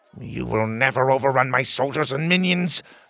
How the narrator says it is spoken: the king spat

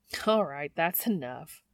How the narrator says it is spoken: Ellen says with a laugh

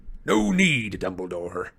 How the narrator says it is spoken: said a wheezy growl

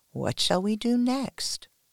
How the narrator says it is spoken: whispers

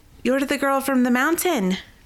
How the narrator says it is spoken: the young woman exclaimed

